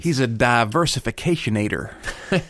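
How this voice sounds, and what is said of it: Imitates another person's voice. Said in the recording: “your impression ... of Bushy ... you're sort of doing an impression of Will Ferrell doing an impression of George Bush”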